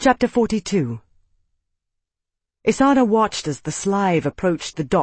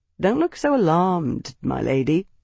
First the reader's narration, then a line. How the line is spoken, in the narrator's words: he murmured